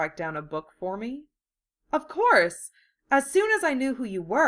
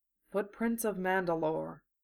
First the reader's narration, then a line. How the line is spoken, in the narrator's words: he murmured under his breath